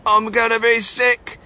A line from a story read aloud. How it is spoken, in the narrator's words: yelled Mrs